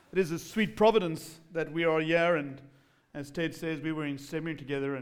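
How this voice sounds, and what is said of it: English accent. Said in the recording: “my accent, that's called English.”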